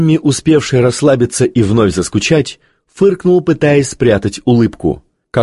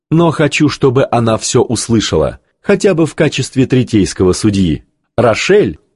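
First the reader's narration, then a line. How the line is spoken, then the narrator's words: Quieter laughing. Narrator (Russian): Ванда снова засмеялась, уже тише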